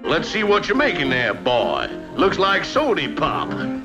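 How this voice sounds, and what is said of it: Foghorn Leghorn soft-R Southern drawl. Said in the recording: “soft R Southern drawl ... Foghorn Leghorn cartoons”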